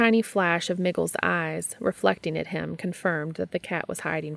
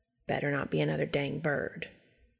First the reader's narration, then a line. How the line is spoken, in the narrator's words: he said softly